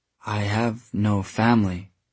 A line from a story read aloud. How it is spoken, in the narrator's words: Tessa said slowly